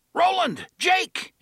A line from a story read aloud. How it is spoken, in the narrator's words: Eddie shouted